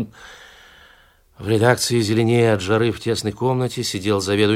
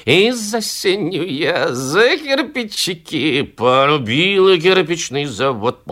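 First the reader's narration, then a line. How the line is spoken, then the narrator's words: Loud singing. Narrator (Russian): громко напевая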